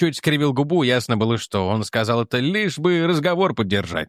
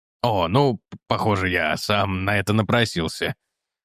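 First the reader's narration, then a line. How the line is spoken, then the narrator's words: Chuckling. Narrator (Russian): хохотнул Морхаус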